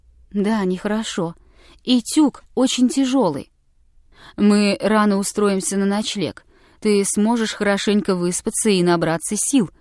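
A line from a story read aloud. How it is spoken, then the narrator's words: Soft. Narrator (Russian): мягко сказал он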